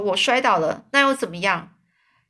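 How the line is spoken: Plain. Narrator (Chinese): 这万次郎就是就说

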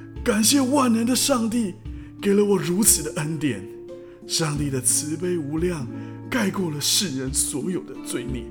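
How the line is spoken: Loud exclamation. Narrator (Chinese): 大声喊道

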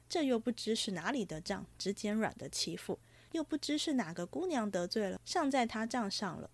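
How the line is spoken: Sighing. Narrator (Chinese): 宝玉叹道

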